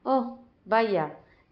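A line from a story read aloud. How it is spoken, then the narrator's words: Plain. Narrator (Spanish): dijo Winnie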